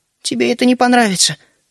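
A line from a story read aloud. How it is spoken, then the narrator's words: Heavy sigh, gremlin. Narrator (Russian): ответил гремлин и тяжело вздохнул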